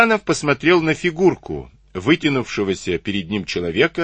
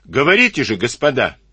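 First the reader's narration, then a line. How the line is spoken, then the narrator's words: Said loudly. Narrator (Russian): Карабанов громко сказал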